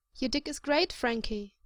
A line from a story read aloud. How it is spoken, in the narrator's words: he says earnestly